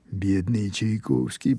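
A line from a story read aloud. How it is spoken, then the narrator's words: Quiet voice from behind. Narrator (Russian): произнес кто-то тихо с заднего стола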